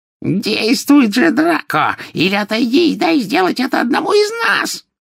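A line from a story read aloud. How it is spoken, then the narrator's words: Shrill witch's cry. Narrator (Russian): визгливо вскрикнула колдунья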